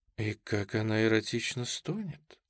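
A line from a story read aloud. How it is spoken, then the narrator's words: Whisper. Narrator (Russian): шепнула вторая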